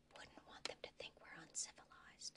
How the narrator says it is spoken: leaned his head down to whisper

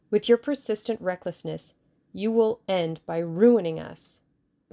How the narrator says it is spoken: the Russian exclaimed bitterly

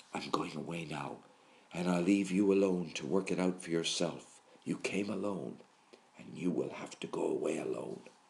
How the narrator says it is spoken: he seems to have whispered

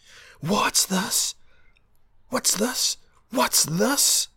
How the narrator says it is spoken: Elric shouted in impudent triumph

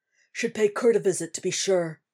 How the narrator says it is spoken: he grunts

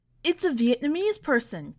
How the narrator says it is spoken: Kuhn shouted

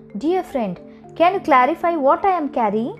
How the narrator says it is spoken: the Brahmin called out

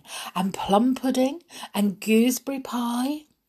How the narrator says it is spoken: said Snow White, laughing

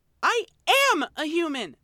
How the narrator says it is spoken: She spat

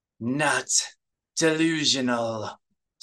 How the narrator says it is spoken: Saba growled

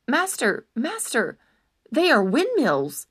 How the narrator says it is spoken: Sancho repeated urgently

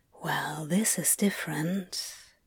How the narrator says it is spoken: he whispered

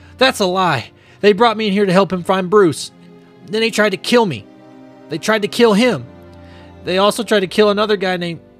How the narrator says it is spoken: Screaming, Jackie says

